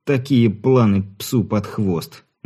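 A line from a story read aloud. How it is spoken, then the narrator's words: Sorrowful sigh. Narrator (Russian): горестно вздохнул Болотин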